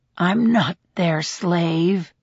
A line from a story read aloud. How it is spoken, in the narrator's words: the man mutters